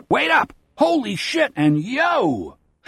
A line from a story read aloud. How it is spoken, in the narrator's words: loud voices shout